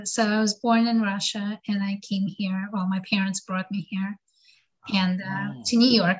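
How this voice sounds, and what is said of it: Slight foreign accent. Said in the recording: “I sense a slight accent”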